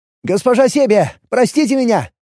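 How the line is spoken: Shouted after someone. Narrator (Russian): выкрикнул я ей вслед

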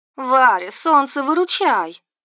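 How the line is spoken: Distressed moan. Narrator (Russian): Будто случилось что-то нехорошее, она застонала

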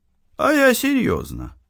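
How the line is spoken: Sighing. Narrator (Russian): вздохнул Кен

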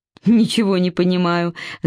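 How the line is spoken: Laughing. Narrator (Russian): засмеялась Вера

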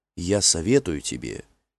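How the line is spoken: Quiet. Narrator (Russian): тихонько сказала Криде

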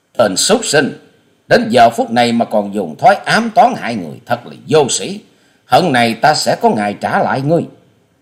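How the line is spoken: Indignant shout. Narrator (Vietnamese): Hoa Sĩ Kiệt quát căm phẫn

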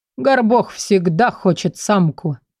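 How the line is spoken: Ogre's snorting reply. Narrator (Russian): Другой огр фыркнул, ответив

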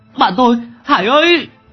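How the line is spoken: Startled loud shout. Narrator (Vietnamese): tỉnh lại, Long Tứ choàng dậy hét to

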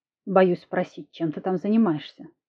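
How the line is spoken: Wind smirking. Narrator (Russian): хмыкнул ветер

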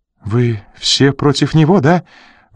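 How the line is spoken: Sudden pleading. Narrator (Russian): вдруг взмолилась Рита

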